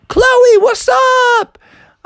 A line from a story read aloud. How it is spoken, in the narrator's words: Frog yelled out